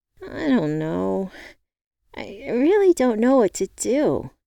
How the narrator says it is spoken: I whined

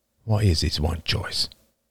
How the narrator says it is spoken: Roman said softly

